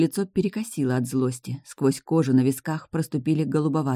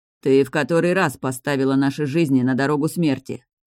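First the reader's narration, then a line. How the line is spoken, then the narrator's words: Man growling. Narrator (Russian): Прорычал мужчина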